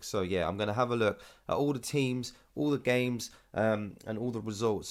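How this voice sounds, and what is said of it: Tired, low-energy voice. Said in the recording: “You might be able to hear in my voice... I'm usually quite loud and full of life. I am not that full of life today because I've just come back from Manchester on a stack weekend and it was a pretty heavy one”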